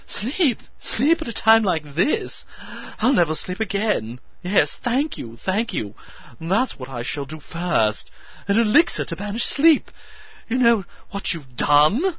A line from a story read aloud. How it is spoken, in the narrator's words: he squeaked, incredibly adding another wave of excitement to his hysteria